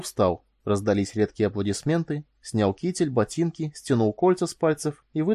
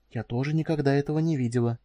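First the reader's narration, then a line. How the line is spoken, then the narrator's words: Whisper. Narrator (Russian): шепнула Корделия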